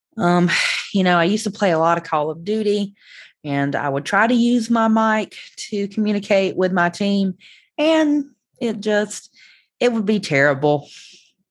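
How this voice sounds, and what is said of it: Southern American accent. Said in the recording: “the Southern accent that I have”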